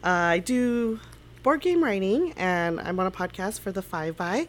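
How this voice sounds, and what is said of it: Congested voice from a cold. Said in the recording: “I have a little cold, so I sound probably a little weird.”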